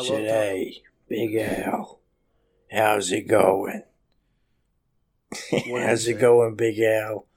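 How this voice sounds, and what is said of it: Put-on mob guy voice. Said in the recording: “you can speak to me in your regular voice ... You do sound like a mob guy”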